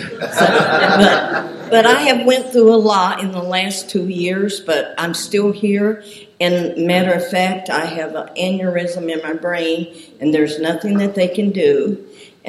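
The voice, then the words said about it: Southern US accent. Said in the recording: “I know I have a southern accent because I'm originally from Kentucky”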